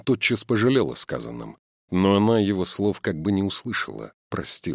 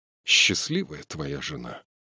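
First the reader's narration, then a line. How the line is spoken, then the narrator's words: Sudden passionate tearful voice. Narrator (Russian): вдруг сказала с неожиданной страстью и сквозь слезы в голосе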